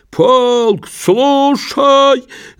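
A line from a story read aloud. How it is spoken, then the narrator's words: Soldier shouting, then coughing. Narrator (Russian): закричал солдат и тотчас закашлялся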